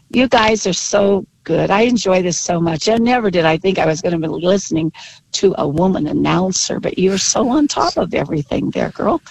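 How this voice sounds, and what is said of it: Slightly husky, hoarse voice. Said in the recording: “with a sore throat ... I'm coming out of that cold right now, so I sound a little husky.”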